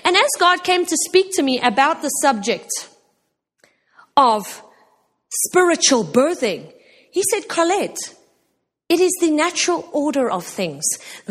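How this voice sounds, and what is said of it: South African accent. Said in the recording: “she's got a South African accent.”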